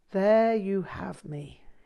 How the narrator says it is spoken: sighed

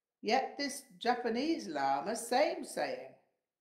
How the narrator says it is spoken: Ludjum Rinpoche laughed and exclaimed

